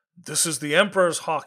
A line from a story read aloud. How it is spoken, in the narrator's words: thundered